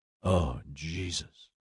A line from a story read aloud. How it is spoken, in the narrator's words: she muttered